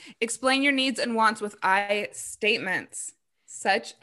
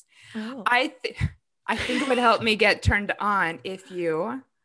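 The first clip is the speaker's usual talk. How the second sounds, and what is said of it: Sultry, seductive voice. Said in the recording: “I'm going to put on my sexy voice.”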